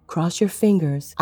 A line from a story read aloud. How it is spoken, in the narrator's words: whispered against the glass